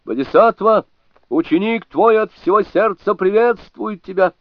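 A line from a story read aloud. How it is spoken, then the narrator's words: Loud excited shout. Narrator (Russian): не удержался и громко крикнул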